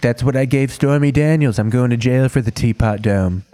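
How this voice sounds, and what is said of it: Imitates another person's voice. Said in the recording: “just did a Trump impression”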